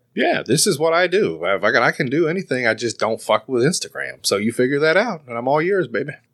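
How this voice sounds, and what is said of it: Southern US accent. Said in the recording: “the dialect. It's that southern thing. ... we sound like fucking rednecks”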